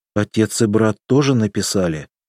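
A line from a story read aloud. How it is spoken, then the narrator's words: Dejected question. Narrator (Russian): упавшим голосом спросила Эльза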